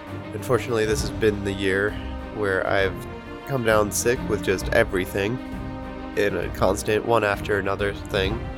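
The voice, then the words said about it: Hoarse, partly lost voice. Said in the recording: “as you may notice, I am kind of losing my voice, or at least I'm getting it back. It was a lot worse, but has been slowly returning.”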